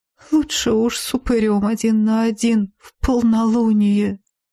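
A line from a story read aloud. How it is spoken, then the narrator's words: Melancholy drawl. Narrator (Russian): с тоской протянул один из боевиков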